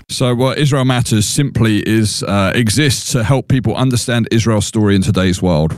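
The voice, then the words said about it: Non-American accent. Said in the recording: “he's not from the United States. You're going to immediately detect that with his accent.”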